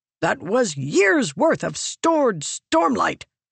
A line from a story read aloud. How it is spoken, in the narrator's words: he exclaimed